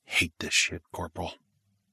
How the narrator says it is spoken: he muttered

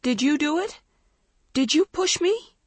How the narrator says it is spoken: Dawn cried through her tears

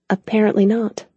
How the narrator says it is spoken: she said softly, hoping the pain she felt wasn't obvious

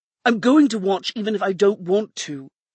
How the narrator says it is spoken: he said, his voice rising in anger

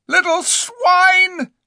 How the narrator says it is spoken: shrieked Eustace, dancing in his rage

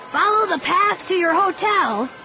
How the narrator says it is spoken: he shouted

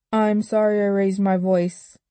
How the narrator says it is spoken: Adam said

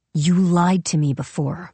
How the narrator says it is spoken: she growled

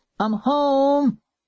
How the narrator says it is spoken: he shouted

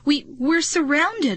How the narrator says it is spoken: I cried

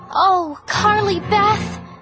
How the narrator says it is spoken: Sabrina shouted

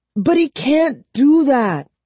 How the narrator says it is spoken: she cried

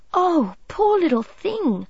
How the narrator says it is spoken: cried Midge

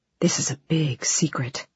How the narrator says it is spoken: Taffy whispered, and not even a gnat could have heard her whisper

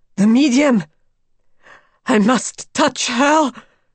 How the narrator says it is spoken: cried Madame X hoarsely

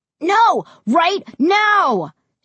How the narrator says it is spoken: Josh screamed

